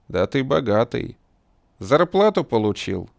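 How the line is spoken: Barking. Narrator (Russian): рявкнул

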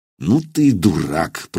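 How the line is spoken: Grumbling. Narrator (Russian): проворчал Илья

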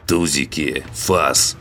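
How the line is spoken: Strangled hoarse voice. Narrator (Russian): Хриплю сдавленно

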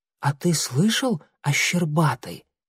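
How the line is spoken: Whispered question. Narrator (Russian): шепотом спросил Огонек Клубка

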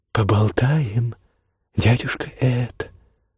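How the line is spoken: Sweet whisper in ear. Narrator (Russian): сладко прошептала Камелия ему на ухо

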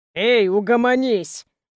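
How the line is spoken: Growl. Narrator (Russian): прорычал Давид

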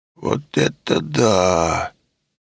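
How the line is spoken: Drawn-out drawl. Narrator (Russian): протянул Леший

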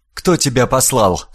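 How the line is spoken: Plain. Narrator (Russian): спросила она

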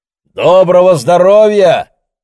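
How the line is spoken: Shouted. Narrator (Russian): крикнул он

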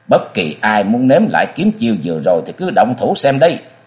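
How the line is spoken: Cold, icy shout. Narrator (Vietnamese): Sắc diện lạnh lùng như băng, chàng lạnh giọng quát bảo

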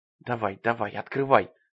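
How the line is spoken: Muttering under breath. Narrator (Russian): бормотал Джоан себе под нос

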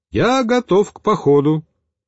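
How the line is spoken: Cheerful voice. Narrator (Russian): Михаил бодрым голосом произнес

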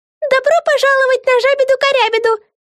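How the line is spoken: Faint high squeak. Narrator (Russian): пропищала Френ таким высоким голосом, что ее едва было слышно

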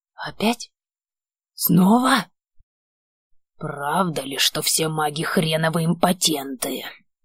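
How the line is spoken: Uncontrollable growl. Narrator (Russian): Прорычал, но не в состоянии это сдержать в себе

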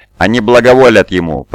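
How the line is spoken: Thundering voice. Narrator (Russian): прогремел Корфаэрон

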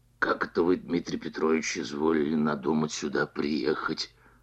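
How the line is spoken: Ingratiating probing question. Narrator (Russian): спросил он вкрадчивым голосом, видимо, желая завязать разговор

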